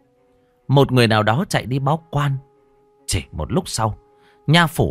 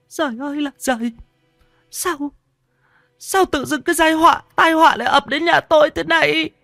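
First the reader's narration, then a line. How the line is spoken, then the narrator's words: Tearful wailing. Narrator (Vietnamese): Bà ngồi thụp xuống đất mếu máo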